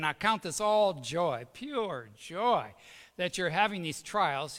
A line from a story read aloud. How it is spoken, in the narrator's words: he said